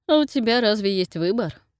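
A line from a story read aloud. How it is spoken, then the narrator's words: Mocking question. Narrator (Russian): насмешливо уточнил Нейт за моей спиной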